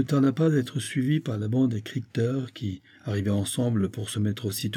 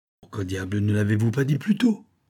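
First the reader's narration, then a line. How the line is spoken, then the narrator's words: Exclaimed. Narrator (French): s'écria-t-il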